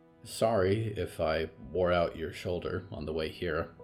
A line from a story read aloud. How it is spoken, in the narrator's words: Olivier said quietly